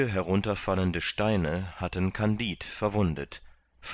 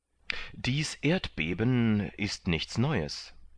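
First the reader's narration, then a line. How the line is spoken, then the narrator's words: Plain. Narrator (German): antwortete Pangloß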